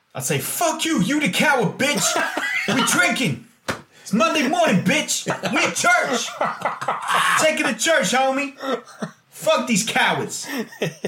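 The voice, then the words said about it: Impression of American voice-clip callers. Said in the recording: “That's such a good impression of him. ... voice clips from DJ Emmanuel and Alex. ... Sir Alex from America. ... They sounded exactly like that.”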